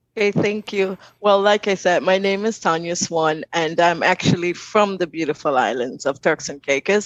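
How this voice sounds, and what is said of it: Turks and Caicos accent. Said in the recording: “I love hearing you speak. I love your accent.”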